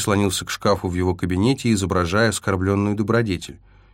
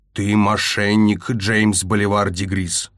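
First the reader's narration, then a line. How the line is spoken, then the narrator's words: Angry growl. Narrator (Russian): прорычал Инскип, злобно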